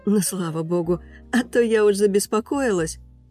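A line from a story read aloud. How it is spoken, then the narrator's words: Relieved sigh, waitress. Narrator (Russian): с облегчением выдохнула официантка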